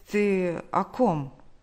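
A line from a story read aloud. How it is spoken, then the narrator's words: Stammering question. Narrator (Russian): он, заикаясь, спросил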